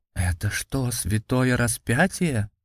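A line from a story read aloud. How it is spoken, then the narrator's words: Soldiers whispering. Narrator (Russian): зашептались солдаты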